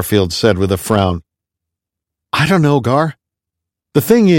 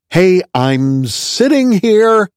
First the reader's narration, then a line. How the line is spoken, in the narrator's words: Bob exclaimed